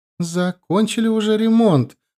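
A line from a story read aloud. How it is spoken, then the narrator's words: Joyful mother. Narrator (Russian): радостно сообщила мама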